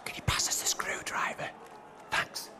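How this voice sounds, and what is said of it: Whispering. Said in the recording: “Why are you whispering? ... I'm whispering. I'm not really good at it.”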